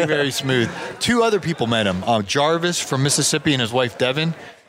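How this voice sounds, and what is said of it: Usual voice. Nothing is said of it.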